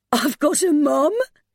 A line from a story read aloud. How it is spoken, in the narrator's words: Mercy cried over and over